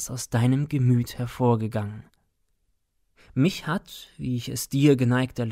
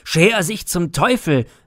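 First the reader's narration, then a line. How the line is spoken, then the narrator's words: Student's angry horrified shout. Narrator (German): rief Wut und Entsetzen im wilden Blick der Student Nathanael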